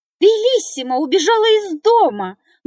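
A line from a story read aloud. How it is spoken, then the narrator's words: Loud shout. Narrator (Russian): громко закричала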